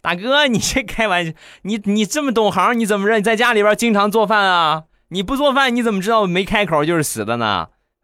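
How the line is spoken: Girl laughing as she speaks. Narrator (Chinese): 这小姑娘笑着就说

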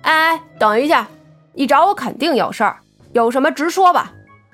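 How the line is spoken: Calling out to stop. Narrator (Chinese): 苗阿飘将她叫住道

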